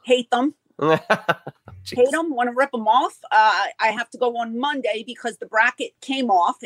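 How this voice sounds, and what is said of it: Philadelphia accent. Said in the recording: “this Philadelphia accent of mine ... the Philly accent”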